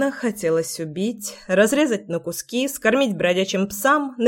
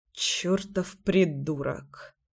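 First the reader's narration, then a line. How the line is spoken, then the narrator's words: Muttered. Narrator (Russian): пробормотал Кирюха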